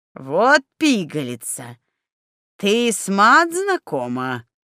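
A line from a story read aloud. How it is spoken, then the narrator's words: Delighted loud laughter. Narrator (Russian): восторженно захохотал Снеговей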